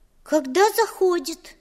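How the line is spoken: Thin little voice. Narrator (Russian): тоненьким голоском отвечала Маша

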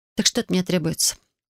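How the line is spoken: Calm. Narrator (Russian): Кайрос спокойно произнес

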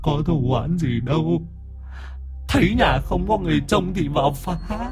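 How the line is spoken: Timid, whimpering. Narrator (Vietnamese): nó mới rụt rè, mồm nó mếu máo

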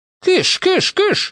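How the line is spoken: Exclaimed. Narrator (Russian): воскликнула миссис Бейкер

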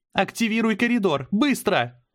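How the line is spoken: Shouting. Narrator (Russian): закричала Мира

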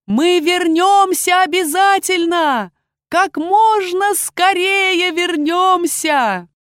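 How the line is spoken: Shouting. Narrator (Russian): крикнула

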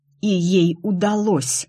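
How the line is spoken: Angry whisper. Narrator (Russian): зло прошептала я

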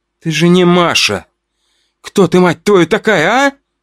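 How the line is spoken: Angry question. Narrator (Russian): злобно спросила у девушки

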